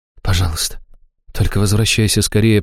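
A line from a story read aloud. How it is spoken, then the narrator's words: Whisper. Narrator (Russian): прошептала Аштира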